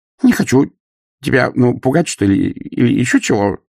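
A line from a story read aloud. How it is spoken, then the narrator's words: Whined. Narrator (Russian): проскулил господ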